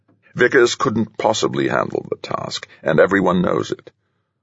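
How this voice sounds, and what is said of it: Studied Oxford English accent. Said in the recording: “replied in his studied Oxford accent”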